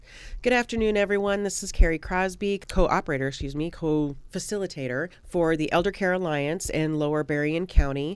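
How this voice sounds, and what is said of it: Congested voice from a cold. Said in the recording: “I sound a little different today. I've got a little bit of a cold”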